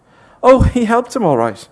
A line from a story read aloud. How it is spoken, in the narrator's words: she said, laughing bitterly